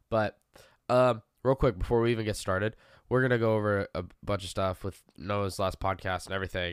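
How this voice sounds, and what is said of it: Sick, congested voice. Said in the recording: “If you cannot already tell by my voice, I am sick ... I have a sinus infection of some sort”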